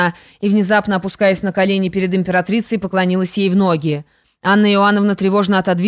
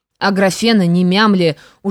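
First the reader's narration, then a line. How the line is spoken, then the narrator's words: Hoarse, agitated empress. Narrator (Russian): уже хриплым, полным волнения голосом произнесла императрица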